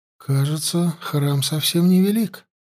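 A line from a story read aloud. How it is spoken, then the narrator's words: Quiet question, young princess. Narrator (Russian): тихо спросила царевна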